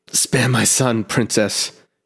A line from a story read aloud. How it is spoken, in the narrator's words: groaned